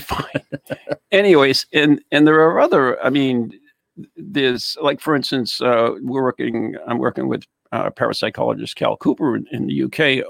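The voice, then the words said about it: Speaks with a noticeable accent. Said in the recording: “You don't like my accent?”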